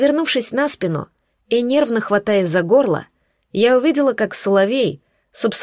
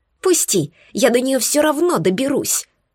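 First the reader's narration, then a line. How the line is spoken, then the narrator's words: Hiss. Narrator (Russian): шипела свирель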